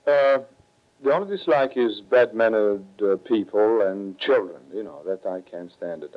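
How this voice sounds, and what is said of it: Italian accent. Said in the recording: “you've lost a great deal of your accent ... Impossible to lose this accent, my Italian accent”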